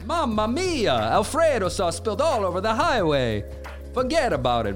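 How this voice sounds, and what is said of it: Exaggerated put-on Italian accent. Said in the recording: “I'm doing this ridiculous accent”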